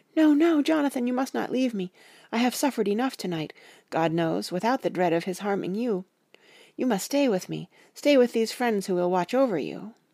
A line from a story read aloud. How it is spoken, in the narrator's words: she cried out